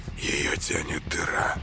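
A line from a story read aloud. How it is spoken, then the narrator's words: Whisper. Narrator (Russian): шепнул Коля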